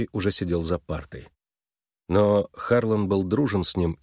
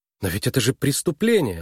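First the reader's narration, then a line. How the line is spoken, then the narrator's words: Exclaiming. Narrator (Russian): воскликнула она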